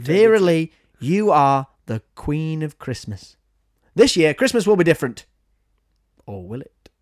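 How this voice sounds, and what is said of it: Slight put-on Derbyshire accent. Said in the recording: “went into like a little bit of a Derbyshire accent”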